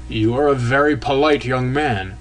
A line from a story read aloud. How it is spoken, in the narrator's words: he suddenly began in a dry, sharp, snuffling voice